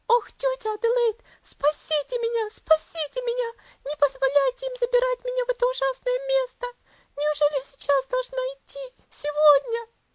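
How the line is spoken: Girl's terrified shriek. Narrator (Russian): Девочка опять вся сжалась и завизжала

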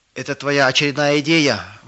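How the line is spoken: Shout. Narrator (Russian): выкрикнул кто-то

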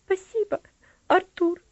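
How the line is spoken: Girl smiling through tears. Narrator (Russian): ответила девочка, улыбаясь сквозь слезы

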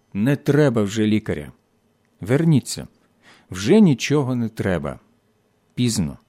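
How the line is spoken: Quiet. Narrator (Ukrainian): Німець тихо сказав

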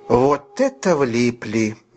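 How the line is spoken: Slow, catching breath. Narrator (Russian): медленно проговорил он, когда отдышался

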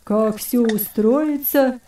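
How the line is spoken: Fierce old man's grumble. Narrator (Russian): свирепо проворчал хромой старик

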